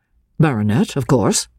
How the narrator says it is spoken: She paused for a moment, and then answered, rather coldly

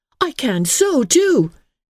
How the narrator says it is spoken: cried Emily

